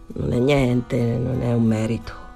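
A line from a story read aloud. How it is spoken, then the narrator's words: Embarrassed murmur. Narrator (Italian): Danny rimase imbarazzato e mormorò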